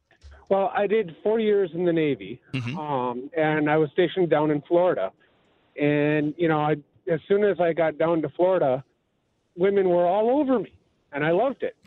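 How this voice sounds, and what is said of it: Wisconsin accent. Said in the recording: “your Wisconsin accent ... You sound just like them.”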